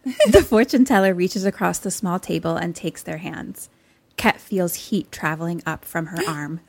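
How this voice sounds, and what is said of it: Usual voice. Nothing is said of it.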